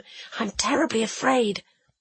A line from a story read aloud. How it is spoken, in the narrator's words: whispered